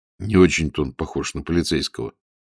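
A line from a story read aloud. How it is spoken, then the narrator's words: Quiet. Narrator (Russian): негромко сказал Волин по-русски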